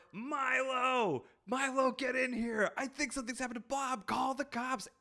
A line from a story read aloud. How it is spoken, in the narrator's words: screaming out the door